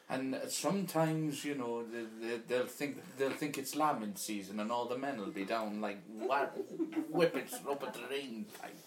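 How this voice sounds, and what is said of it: Attempted Welsh accent. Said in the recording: “Can't do a Welsh accent.”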